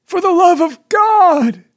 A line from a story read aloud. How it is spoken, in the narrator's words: muffled voice cried